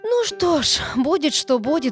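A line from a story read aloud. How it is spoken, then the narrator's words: Sigh. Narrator (Russian): вздохнул мэр Яры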